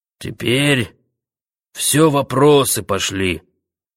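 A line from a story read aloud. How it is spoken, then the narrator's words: Colonel's hoarse interjection. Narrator (Russian): сиплым голосом вмешался полнокровный полковник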